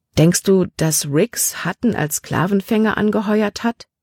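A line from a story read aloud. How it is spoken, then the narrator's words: Plain question. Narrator (German): fragte sie Caleb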